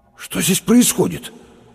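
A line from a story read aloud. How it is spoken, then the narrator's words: Strained, forced out. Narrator (Russian): выдавил Лопатиков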